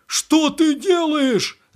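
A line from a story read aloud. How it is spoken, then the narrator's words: Yelling. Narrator (Russian): завопил Веселов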